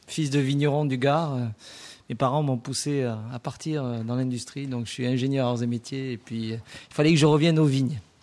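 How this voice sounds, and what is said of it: Noticeable regional French accent. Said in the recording (French): “vous avez un joli accent”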